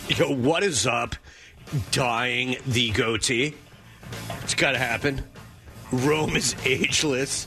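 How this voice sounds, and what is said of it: Good Jim Rome impression. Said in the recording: “That is a very good Rome impersonation”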